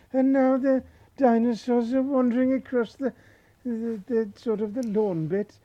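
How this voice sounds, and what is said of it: Imitates a nature documentary narrator. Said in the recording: “is playing David Attenborough... That's my impression”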